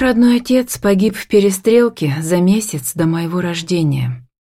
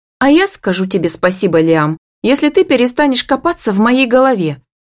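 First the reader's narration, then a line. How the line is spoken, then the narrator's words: Slightly irritated. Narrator (Russian): бросаю чуть раздраженно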